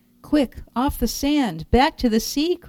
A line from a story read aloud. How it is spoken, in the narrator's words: cried the snail